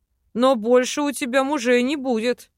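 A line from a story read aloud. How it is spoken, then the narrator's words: Amused snort. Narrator (Russian): хмыкнул эльф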